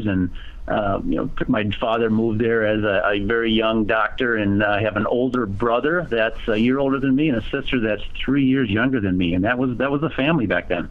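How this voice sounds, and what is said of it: Minnesota accent. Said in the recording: “I've not shaken the accent. I am originally from Minnesota”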